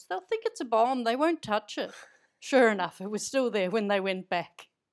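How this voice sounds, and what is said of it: Slips into an Irish accent. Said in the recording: “you went into an Irish accent there”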